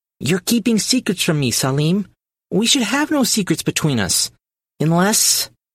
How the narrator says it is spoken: faltered

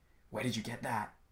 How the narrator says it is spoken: He asked in a low voice

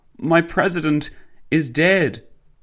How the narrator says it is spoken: the woman sobbed

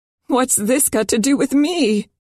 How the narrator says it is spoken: Her voice trembled

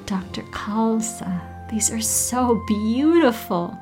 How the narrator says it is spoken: she exclaimed

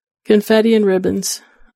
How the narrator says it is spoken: I whimper

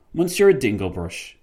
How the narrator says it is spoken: Fitzwilliam exclaimed

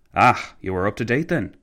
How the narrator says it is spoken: McCallville sighed

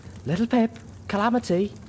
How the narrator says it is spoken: Velvet whimpered

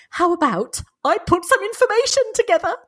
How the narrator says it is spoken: said Tom, his voice quivering with excitement

